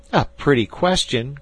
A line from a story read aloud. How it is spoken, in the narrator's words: cried Jack